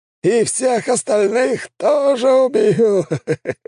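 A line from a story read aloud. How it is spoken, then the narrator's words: Laughing menacingly. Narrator (Russian): расхохотался маг воздуха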